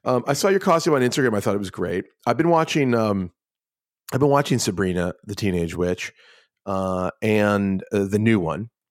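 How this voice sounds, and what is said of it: Hoarse, fading voice. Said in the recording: “I'm losing my voice a little bit. From all my hooting and hollering on Halloween.”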